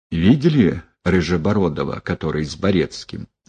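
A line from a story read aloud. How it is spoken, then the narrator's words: Whisper. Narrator (Russian): прокурор Лапо шепнул Прутову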